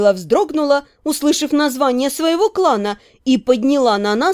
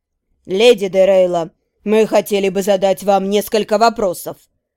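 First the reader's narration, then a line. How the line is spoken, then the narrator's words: Calm. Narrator (Russian): спокойно произнес Трапиш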